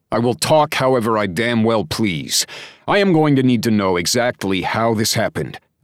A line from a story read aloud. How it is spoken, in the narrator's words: shouted over everyone else's words